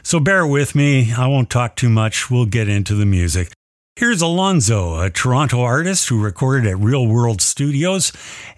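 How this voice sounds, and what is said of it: Voice sounds sick. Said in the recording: “I'm suffering with this flu, and it's the worst I've been sick ... you can probably hear it in my voice.”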